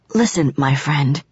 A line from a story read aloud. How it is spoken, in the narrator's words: I whispered